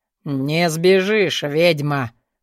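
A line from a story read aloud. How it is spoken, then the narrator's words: Monk speaking through teeth. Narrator (Russian): Процедил ей в лицо монах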